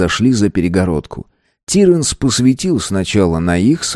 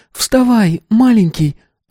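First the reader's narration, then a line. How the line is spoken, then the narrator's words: Whimpering from afar. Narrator (Russian): оттуда захныкали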